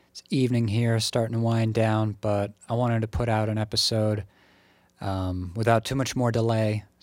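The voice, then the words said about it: Slightly tired-sounding voice. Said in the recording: “I sound a little tired”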